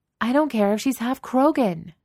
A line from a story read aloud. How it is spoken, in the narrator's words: Genevieve yells